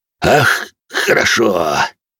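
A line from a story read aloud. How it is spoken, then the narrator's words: Satisfied grunt. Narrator (Russian): довольным голосом крякнул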